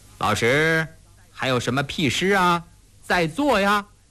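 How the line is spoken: Forced laugh. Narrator (Chinese): 勉强地笑着，刚说了句

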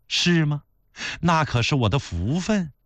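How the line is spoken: Flirtatious, smiling. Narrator (Chinese): 孝庄是抿嘴一笑，有那么几分挑逗地跟他说

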